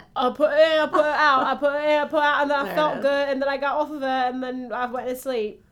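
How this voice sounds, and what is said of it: Put-on British accent. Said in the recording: “you have to do it with a British accent.”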